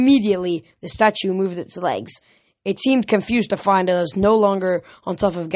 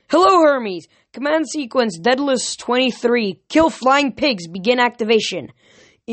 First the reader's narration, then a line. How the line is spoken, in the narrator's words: I yelled